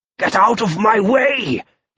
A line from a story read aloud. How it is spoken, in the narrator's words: he growled